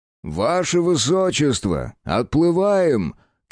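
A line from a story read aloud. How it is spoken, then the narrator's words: Shouted. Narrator (Russian): крикнул ему капитан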